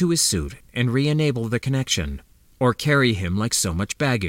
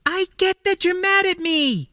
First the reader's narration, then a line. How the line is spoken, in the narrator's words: she countered hotly, holding off panic with only the greatest of effort